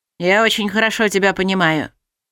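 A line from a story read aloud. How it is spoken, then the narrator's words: Gloomy young man. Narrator (Russian): мрачно ответил парень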